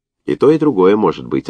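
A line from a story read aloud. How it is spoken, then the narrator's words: Forced calm. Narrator (Russian): ответила Лена, стараясь говорить спокойно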